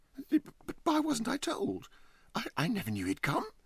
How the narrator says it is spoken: exclaimed Huddle

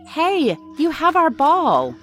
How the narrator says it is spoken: Jack shouting

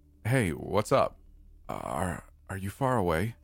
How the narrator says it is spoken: she asked nervously

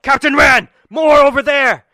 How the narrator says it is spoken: one of the guards yell

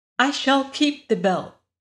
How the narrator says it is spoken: said Dorothy

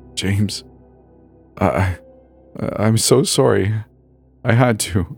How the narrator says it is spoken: Aaron whimpered

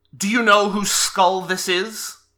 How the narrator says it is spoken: says, in Draconic, it's a shriek, and it says

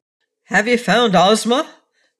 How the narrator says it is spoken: cried the wizard

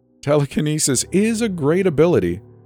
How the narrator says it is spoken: Wen laughed

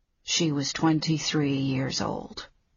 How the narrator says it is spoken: Leo said softly

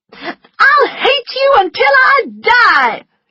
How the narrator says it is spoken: she shouted

